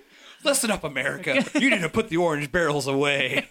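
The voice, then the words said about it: Mock conservative talk-radio host voice. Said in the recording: “you sound like a conservative radio host”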